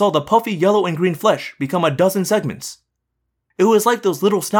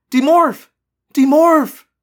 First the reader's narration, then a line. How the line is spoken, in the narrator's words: cried